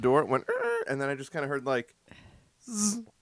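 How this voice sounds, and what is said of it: Buzzing fly impression. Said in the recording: “That's a good impression of him. That's spot on.”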